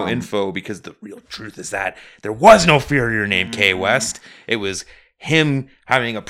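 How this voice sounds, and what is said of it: Usual voice. Nothing is said of it.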